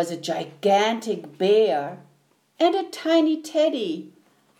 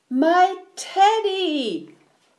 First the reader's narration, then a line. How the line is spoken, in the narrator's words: cried Eddie